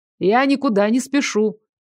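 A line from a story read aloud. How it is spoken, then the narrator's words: Loud. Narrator (Russian): громко сказал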